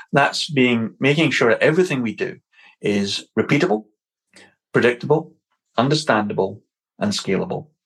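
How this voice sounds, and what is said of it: Scottish accent. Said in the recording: “I said them pretty quick in a Scottish accent”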